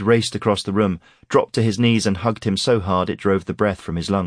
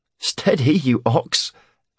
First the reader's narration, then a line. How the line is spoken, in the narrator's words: Aaron laughed